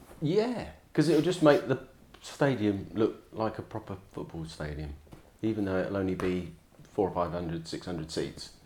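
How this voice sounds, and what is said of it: Slightly northern English accent. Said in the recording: “he did that in a slightly northern accent”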